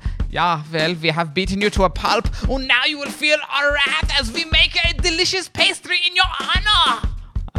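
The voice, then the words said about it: Poor put-on Austrian accent. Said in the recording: “Weird flex, Austrians ... I'm not good at that accent.”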